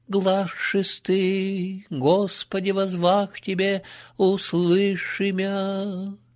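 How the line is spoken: Rough hoarse old nun. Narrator (Russian): возгласила грубым и хриплым старческим голосом монахиня-канонарх

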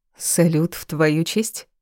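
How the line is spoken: Plain. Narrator (Russian): спросила

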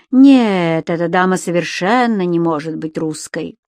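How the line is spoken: Mocking question from patient. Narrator (Russian): пациентка насмешливо спросила

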